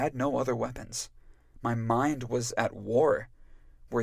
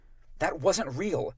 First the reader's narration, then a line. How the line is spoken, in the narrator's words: I snapped